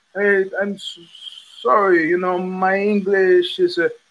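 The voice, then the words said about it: Imitation of a store worker. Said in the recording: “I'm not going to do a great imitation of him.”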